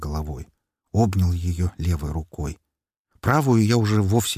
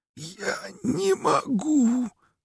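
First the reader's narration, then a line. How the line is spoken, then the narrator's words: Tearful forced words. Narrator (Russian): со слезами выдавила она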